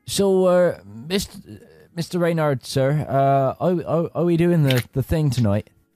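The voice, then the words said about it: Character voice, West Country accent. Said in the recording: “he definitely always had a West Country accent ... He's turned into Samwise Gamgee”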